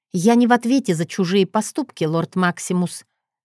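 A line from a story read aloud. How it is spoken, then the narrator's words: Dry. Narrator (Russian): сообщила сухо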